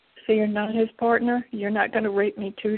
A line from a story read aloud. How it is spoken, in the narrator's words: she asks